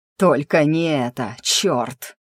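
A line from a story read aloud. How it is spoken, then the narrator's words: Growling. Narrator (Russian): прорычал Элви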